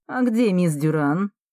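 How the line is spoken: Mocking question. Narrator (Russian): насмешливо спрашивает Марко

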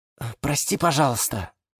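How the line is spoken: Quiet calling. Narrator (Russian): тихо позвал его Гиацинт Василий

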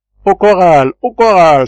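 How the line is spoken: Sailor exclaiming. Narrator (French): s'écria le marin

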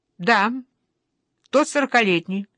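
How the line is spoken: Cold repetition. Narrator (Russian): повторяю за мамой холодно

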